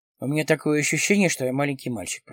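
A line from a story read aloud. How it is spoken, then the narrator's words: Muttering. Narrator (Russian): пробормотал Дронго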